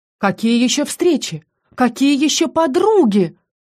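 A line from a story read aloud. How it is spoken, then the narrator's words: Loud indignation. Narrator (Russian): Громко возмутилась Диана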